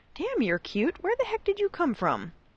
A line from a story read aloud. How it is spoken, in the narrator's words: Draco squeaked excitedly